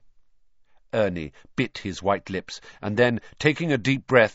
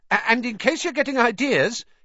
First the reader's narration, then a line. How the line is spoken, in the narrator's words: he added hastily